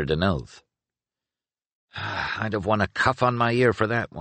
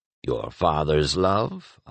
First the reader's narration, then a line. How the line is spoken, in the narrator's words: Oswill asked dryly